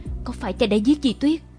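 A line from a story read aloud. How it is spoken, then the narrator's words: Stammering. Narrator (Vietnamese): Như Bình lắp bắp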